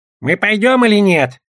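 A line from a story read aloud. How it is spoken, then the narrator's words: Goblin's grumble. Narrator (Russian): проворчал гоблин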